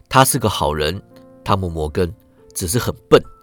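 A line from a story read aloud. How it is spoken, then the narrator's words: Quiet. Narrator (Chinese): 席尔法小声对我说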